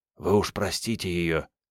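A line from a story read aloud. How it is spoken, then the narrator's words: Whispered. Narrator (Russian): Пельняк прошептал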